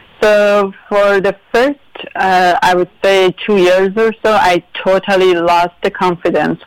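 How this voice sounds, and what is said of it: Non-native English accent. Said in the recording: “Even though I knew English ... people are judging me for my accent”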